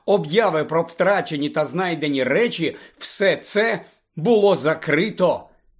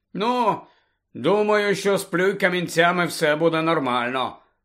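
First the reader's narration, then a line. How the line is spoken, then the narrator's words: Gloomy grumble. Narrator (Ukrainian): похмуро буркнув Рон, так аж другокласник підскочив з несподіванки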